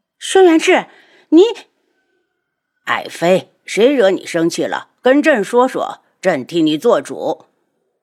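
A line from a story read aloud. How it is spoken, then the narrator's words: Angry roar. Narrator (Chinese): 白贵妃气恼的大吼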